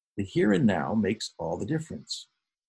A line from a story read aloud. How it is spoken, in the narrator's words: gently offered